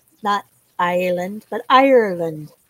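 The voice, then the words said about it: Bad put-on Irish accent. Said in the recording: “I do a really bad Irish accent”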